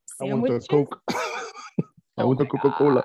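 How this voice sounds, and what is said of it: Put-on strange accent. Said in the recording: “I'm rich now, so now I have this strange accent.”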